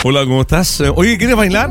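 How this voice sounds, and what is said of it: Announcer-style voice. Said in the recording (Spanish): “Ponen voz de locutor.”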